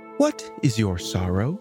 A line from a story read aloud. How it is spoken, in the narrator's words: she asked kindly